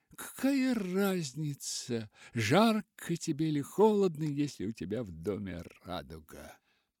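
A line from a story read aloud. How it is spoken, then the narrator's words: Sick man laughing. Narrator (Russian): Больной снова засмеялся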